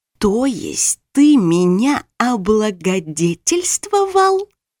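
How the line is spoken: Low hiss. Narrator (Russian): Я перешла на низкое шипение

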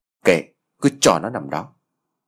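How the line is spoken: Ice-cold voice. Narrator (Vietnamese): Lan bằng giọng lạnh tanh

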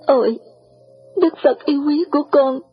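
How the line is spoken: Choked with emotion. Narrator (Vietnamese): Chàng nghẹn ngào

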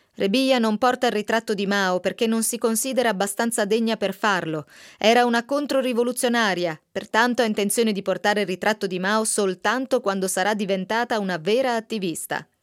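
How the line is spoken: Bright boy's loud proclamation. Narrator (Italian): Era un ragazzo sveglio e proclamò a gran voce

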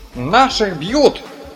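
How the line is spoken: Someone shouting. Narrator (Russian): закричал кто-то

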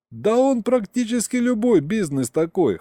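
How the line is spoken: Chuckling. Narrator (Russian): хохотнул Саня

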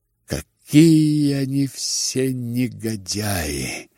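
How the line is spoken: Whisper. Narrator (Russian): опять прошептал Ипполит

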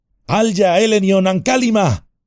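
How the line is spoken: Shouting. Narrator (Spanish): gritó Frodo detrás de Sam

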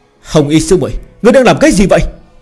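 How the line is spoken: Indignant shout. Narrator (Vietnamese): Hạc Linh Tử không khỏi phẫn nộ quát

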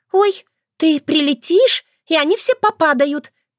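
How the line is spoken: Squeaky excitable girl. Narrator (Russian): пискнула одна из наиболее впечатлительных племянниц

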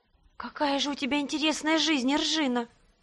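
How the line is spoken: Envious moan. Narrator (Russian): завистливо простонала Донна

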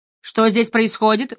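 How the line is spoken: Loud question. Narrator (Russian): громко спросил Дезре

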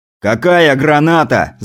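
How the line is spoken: Yelling. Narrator (Russian): заорал Кузнецов

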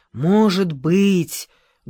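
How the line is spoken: Loud whisper. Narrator (Russian): громко прошептала

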